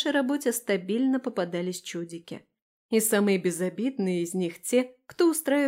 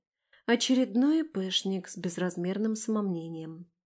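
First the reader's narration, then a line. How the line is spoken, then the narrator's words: Whispered with a smile. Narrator (Russian): шепнула я, улыбнувшись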